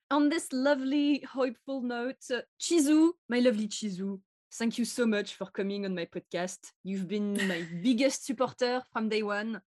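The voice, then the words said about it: Thick French accent. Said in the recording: “my really thick French accent.”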